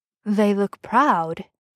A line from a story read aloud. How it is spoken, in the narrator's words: he murmurs